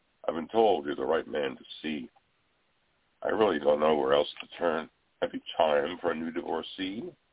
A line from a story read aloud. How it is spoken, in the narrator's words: inquired huskily